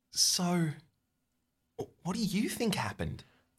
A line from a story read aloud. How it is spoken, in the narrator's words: Laura whispers